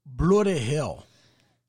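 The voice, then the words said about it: Poor attempt at Australian accent. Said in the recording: “your English accent? ... I was trying to do an Australian accent, but that didn't work out”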